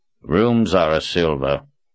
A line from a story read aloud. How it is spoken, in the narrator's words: said in a disinterested tone